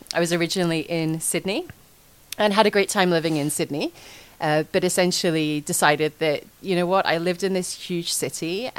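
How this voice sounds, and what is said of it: Scottish accent. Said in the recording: “I'm not from Australia originally, as you may guess by my accent... I moved out to Australia from Scotland”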